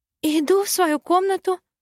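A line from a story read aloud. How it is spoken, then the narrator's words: Timid babble. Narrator (Russian): пролепетала адептка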